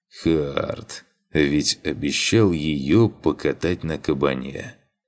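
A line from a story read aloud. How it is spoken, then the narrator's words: Sighing. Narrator (Russian): Вздохнул я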